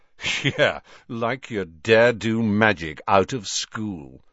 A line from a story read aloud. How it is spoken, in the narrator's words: sneered Malfoy